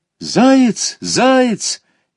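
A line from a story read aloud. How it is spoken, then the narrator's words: Boy's sudden joyful shout. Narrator (Russian): Вдруг кто-то из мальчиков радостно крикнул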